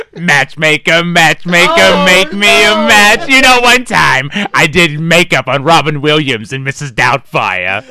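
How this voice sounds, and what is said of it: Harvey Fierstein impression. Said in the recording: “Harvey Firestein!”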